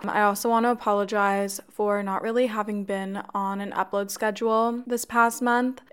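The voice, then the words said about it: Congested, raspy voice. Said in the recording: “apologize for my voice. My throat has been a bit sore, and I definitely think I have a cold of some sort, so I'm sorry if it sounds a little congested or raspy or off.”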